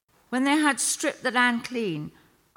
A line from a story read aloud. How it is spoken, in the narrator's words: I cried out